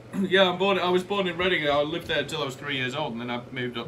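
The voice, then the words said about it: Northern English accent. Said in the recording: “you sound northern as fuck”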